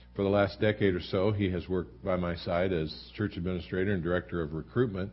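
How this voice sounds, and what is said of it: Congested, flu-affected voice. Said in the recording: “apologize for my voice ... This has been a week filled with flu and a lot of congestion ... my voice being the way it is”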